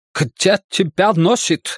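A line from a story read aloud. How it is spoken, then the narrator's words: Shouting. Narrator (Russian): закричал он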